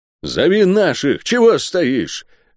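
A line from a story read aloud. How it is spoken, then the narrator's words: Armed man's bark. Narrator (Russian): рявкнул вооруженный щитом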